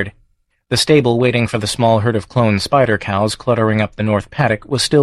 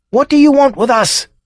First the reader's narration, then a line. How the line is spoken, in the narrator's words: he yelled up at the gently buzzing farm